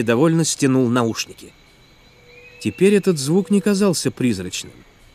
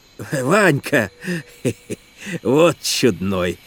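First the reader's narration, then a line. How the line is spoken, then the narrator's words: Laughing. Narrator (Russian): засмеялся Федор Степанович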